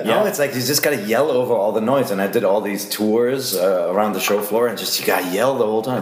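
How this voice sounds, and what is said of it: Hoarse, strained, losing voice. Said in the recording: “I'm losing my voice, so I'll sound differently”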